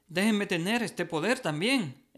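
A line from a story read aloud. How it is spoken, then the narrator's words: Exclaimed. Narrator (Spanish): exclamó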